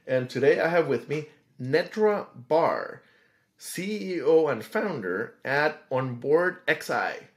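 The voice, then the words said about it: Put-on radio host voice. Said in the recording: “switching to my radio voice.”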